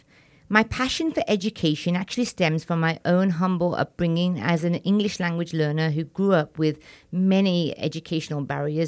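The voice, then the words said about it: Slight Indian-British accent. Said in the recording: “I'm Indian and British ... You probably sensed a little accent there.”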